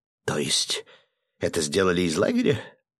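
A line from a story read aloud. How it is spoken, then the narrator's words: Confused mutter. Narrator (Russian): растерянно пробормотал граф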